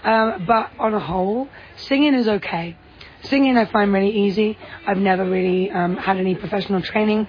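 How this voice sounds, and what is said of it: Worn, tired-sounding voice. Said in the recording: “As you can tell by my voice right now, I had a bit of a late night last night, which made my job harder today singing-wise.”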